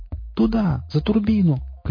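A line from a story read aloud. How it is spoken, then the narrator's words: Shouted. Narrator (Russian): крикнула Настя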